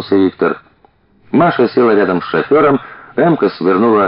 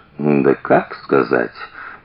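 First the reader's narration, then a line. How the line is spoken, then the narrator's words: Drawl. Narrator (Russian): протянул Виктор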